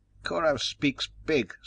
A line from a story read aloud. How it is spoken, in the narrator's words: sneered a young one